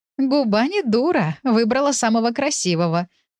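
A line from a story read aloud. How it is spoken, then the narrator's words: Mother laughing. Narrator (Russian): рассмеялась ее мать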